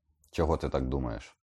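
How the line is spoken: Sharp question. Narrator (Ukrainian): різко спитав він

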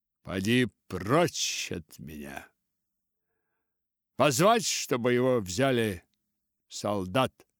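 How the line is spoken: Plain. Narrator (Russian): сказал князь

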